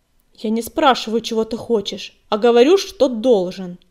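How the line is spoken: Stern. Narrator (Russian): строго заявила пепелица

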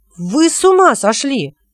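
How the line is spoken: Shouting. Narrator (Russian): закричал Хилот

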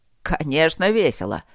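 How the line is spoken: Dragon's snorting chuckle. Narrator (Russian): хмыкнул дракон

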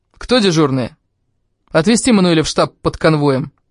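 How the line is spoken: Sharp, impatient. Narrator (Russian): Не дождавшись, он резко сказал

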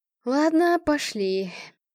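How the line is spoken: Sighing. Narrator (Russian): вздохнул Никита

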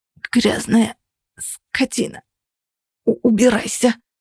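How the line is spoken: Hoarse rasp. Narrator (Russian): прохрипела она

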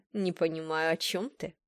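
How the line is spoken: Mocking. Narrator (Russian): насмешливо сказал он

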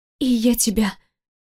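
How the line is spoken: Faint attempted whisper. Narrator (Russian): пытаюсь прошептать

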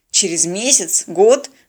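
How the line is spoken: Irritated interruption. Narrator (Russian): раздраженно перебил Станислав

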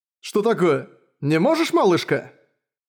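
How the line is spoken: Man speaking loudly. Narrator (Russian): Мужчина говоря громко, чтобы другие его услышали

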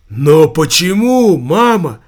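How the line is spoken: Exclaimed. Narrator (Russian): Воскликнул Савиньи

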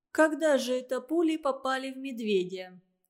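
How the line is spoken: Plain question. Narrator (Russian): спросила Анна

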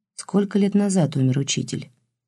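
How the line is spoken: Quiet question. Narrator (Russian): тихо спросил Илюшин

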